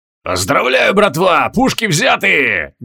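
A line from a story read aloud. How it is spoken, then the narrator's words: Bellowing captain. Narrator (Russian): гаркнул гренадерский капитан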